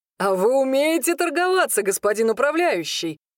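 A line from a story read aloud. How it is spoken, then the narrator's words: Pleased chuckle. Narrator (Russian): наконец хохотнул довольно Хенрик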